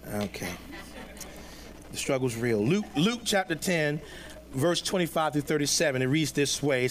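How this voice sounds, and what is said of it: Southern North Carolina twang. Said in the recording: “that southern, I'm trying to get rid of that North Carolina twang that I picked up”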